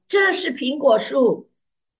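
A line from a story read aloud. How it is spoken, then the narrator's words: Loud. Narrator (Chinese): 你就很大声地说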